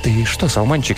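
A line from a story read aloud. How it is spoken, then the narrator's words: Asked quietly. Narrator (Russian): тихо спросил Березовский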